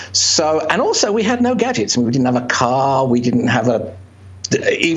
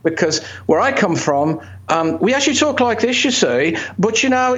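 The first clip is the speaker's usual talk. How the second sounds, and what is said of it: Birmingham English accent. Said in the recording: “This is the English accent with the Birmingham touch. ... That's what Ozzy Osbourne sounds like.”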